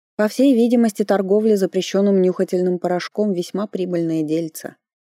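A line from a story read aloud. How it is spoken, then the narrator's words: Muttering grumble. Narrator (Russian): пробурчала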